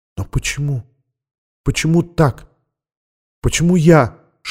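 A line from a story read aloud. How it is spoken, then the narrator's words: Whisper. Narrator (Russian): шепнула она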